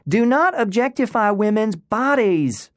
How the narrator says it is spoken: Alaska shouted

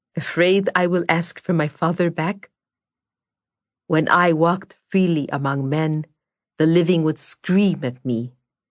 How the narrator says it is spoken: Morozko replied evenly

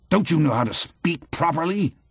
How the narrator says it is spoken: roars

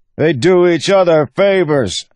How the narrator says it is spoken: the man bellowed

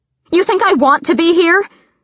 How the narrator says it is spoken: Selena shouted, even though it made her head pound

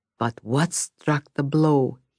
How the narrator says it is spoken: He muttered

